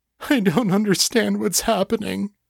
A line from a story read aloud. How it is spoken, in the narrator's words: Chase sobbed